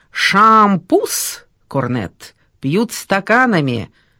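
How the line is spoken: Highly authoritative tone. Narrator (Russian): пояснил Топорков крайне авторитетным тоном

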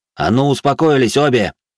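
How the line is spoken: Barking. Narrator (Russian): рявкнул

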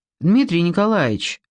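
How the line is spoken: Plain. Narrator (Russian): спросила она

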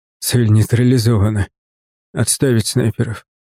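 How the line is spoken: Hoarse report. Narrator (Russian): хрипло доложил

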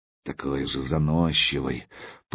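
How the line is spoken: Muttered. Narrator (Russian): пробормотал он

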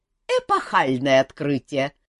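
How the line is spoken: Snorting. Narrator (Russian): фыркнул со своей ветки мэтр Ален

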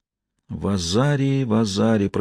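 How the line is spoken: Whisper. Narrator (Russian): прошептала Сиена

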